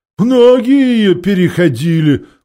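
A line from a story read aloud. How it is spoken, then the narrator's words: Gloomy. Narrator (Russian): мрачно вымолвил Хмур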